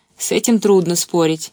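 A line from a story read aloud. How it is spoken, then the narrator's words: Giggling. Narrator (Russian): хихикнула она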